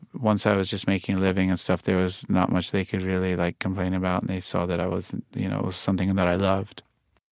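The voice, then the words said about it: Mix of British and New York accents. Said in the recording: “you can put on your British accent when you want and your New York accent when you want ... I hear like a mix of both in your speaking voice”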